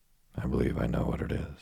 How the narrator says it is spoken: said Robert

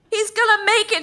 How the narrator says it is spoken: shouted the doctor

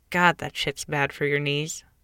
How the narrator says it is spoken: I'd mutter under my breath

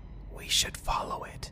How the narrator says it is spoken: Jim then whispered

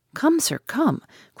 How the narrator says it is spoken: cried, rushing upstairs

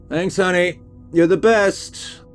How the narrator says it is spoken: shouted out to her

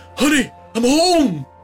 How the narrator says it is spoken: yelling

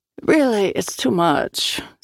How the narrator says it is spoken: said Pavel

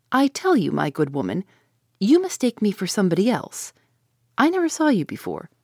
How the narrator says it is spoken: said in a rather milder tone

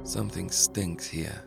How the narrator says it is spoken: mumbled Capone

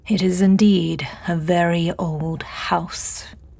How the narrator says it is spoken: James drawled, a slight insulting emphasis on the last word

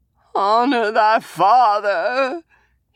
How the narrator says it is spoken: he whined

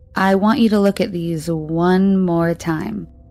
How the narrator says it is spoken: he said slowly

